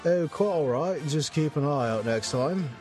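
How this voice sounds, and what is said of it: Mature British accent. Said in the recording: “He speaks with a mature British accent.”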